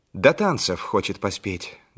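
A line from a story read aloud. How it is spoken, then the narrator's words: Plain. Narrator (Russian): говорит Толя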